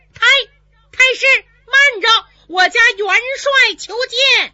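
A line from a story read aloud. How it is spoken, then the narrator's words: Sudden shout. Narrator (Chinese): 有人喊了一嗓子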